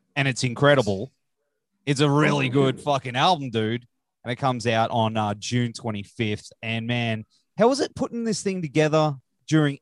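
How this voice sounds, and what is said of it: Rough Australian accent. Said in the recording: “me being here in Australia, though, with our accent ... it's very rough ... Our accent is very rough ... we sound like a backwards record sometimes ... the Australian”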